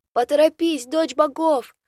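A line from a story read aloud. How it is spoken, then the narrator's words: Watchman shouting from above. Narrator (Russian): снова прокричал сверху дозорный Шалай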